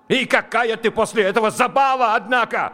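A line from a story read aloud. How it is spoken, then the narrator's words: Yelled. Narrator (Russian): заорал он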